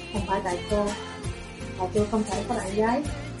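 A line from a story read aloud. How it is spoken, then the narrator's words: Soft reply after silence. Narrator (Vietnamese): Sở Thu Phàm lặng yên một lúc mới khẽ trả lời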